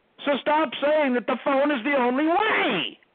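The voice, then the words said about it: Shouting, angry raised voice. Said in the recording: “Why are you shouting?”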